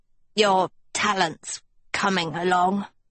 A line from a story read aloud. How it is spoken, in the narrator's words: Hester croaked